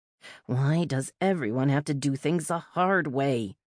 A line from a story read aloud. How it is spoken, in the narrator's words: I grumbled